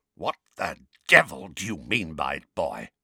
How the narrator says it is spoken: asked Uncle Vernon in a croaky voice that trembled with fury

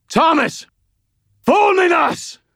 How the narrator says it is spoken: screamed

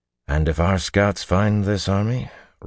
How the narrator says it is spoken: Rand replied calmly

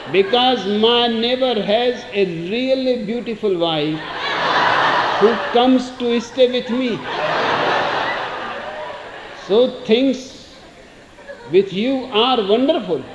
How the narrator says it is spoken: says Rubin

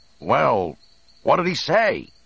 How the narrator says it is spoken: Han shouted with some concern

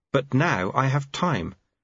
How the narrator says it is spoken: said Lobsang earnestly

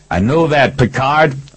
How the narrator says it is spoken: I yelled back

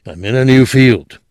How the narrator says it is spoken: he said curtly

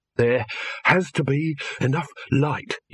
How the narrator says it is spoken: he panted

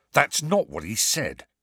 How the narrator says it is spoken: snarled Fred

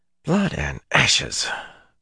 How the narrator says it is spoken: Matt muttered

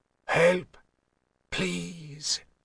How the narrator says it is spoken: said in a hoarse whisper

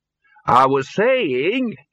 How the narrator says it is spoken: he said loudly

